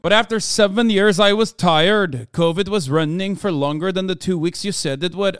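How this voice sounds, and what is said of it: Put-on Nordic accent. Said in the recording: “It's hard to keep doing the accent. ... Apologize for the accent. I will never apologize for doing the correct accent for Iceland, Norway, Denmark”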